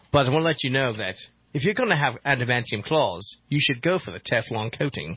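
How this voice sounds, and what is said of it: Australian-accented Wolverine character voice. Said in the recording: “I'm Wolverine. You bet you didn't know I had an Australian accent.”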